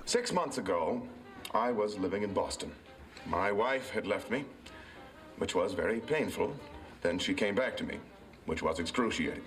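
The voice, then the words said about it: Distinguished mid-Atlantic accent. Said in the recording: “A very mid-Atlantic ... mid-Atlantic accent, and it's very distinguished ... pretentious”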